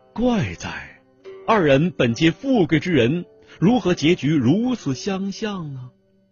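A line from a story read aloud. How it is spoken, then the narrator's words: Sighing. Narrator (Chinese): 叹道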